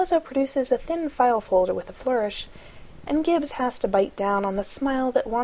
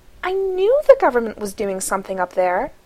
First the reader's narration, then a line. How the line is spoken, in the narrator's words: Abby exclaims